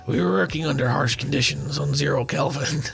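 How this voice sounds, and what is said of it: Gruff Swedish-American accent impression. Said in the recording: “Can I do the Swedish accent? ... a Stellan Skarsgård accent. ... It's just kind of like a really gruff, like kind of American.”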